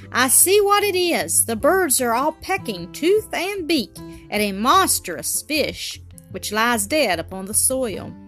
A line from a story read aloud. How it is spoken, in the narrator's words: Presently, he suddenly exclaimed